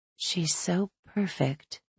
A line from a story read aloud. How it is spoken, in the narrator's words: I whisper, marveling